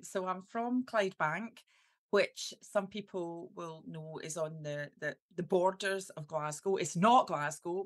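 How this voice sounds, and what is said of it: Strong Scottish accent. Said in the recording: “I've got this really strong Scottish accent”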